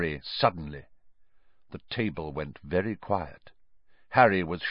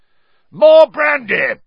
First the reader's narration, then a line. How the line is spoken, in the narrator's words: yelled Uncle Vernon